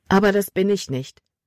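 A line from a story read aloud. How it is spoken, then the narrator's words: Plain. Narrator (German): sagte sie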